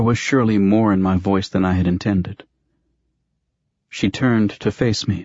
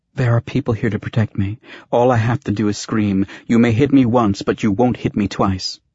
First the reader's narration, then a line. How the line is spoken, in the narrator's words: she added quickly